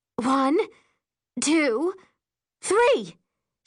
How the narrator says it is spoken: she shouts

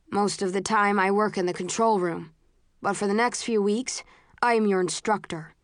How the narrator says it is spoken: he says

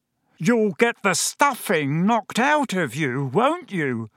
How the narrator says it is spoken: roared Uncle Vernon

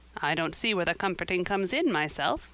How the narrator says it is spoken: said Marilla

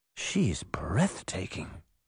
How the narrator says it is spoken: Veronica whispered

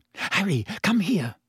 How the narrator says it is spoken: said urgently

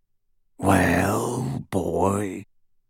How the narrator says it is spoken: rasped the werewolf

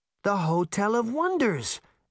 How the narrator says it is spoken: Daphne exclaimed

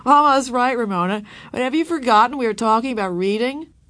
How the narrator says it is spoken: Whaley laughed and said

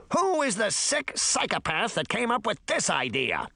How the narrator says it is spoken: one of the Lilliputians shouted indignantly

